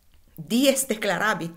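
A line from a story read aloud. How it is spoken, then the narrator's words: Said laughing. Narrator (Italian): disse Alfredo, ridendo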